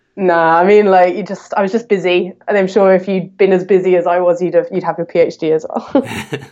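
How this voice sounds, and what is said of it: British accent. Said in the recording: “where's the accent come from? ... I was brought up in the UK”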